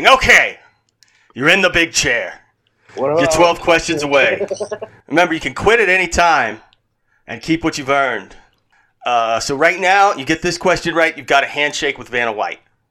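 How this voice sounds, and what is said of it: Regis Philbin impression. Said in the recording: “doing a Regis impression”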